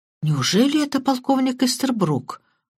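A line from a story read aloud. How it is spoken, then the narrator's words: Muttered. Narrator (Russian): пробормотал Крадок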